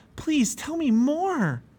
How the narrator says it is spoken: Pliable begged

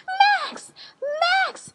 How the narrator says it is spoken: he shouted

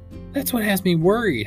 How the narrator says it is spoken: cried

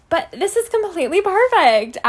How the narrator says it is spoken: Alice squealed happily

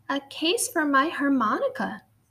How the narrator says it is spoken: he said

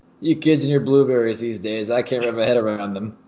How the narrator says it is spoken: Gruden simply laughed it off and said

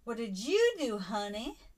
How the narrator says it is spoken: In a smart-ass sneer

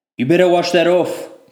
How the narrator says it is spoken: Connor shouted in his slumber

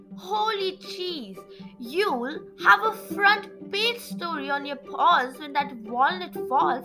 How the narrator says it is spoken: exclaimed Geronimo

